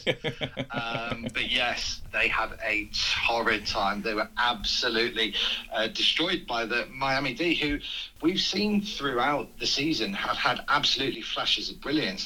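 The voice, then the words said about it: Telephone-quality voice. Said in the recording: “with my telephone voice”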